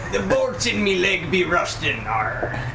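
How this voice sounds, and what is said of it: Pirate voice. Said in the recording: “your best pirate impression”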